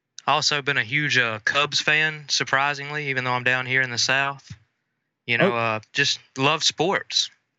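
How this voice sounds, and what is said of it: Mississippi Southern accent. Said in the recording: “everyone will notice immediately your accent ... from the great state of Mississippi”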